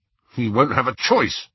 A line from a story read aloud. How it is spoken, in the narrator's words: said Ron fiercely